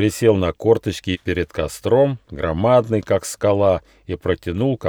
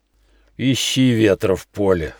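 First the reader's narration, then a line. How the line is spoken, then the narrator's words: Guffawing yeti with echo. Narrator (Russian): захохотал Йети, и троекратное эхо ответило ему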